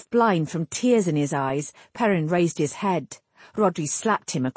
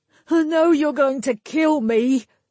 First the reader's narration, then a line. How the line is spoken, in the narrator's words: Perrin gasped